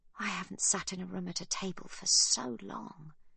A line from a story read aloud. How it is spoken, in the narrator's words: Eliana says quietly